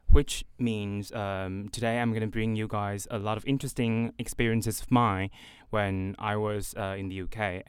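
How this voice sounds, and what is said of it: British accent. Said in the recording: “why do you have this British accent?”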